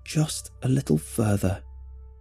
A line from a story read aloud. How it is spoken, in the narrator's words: I plead through my teeth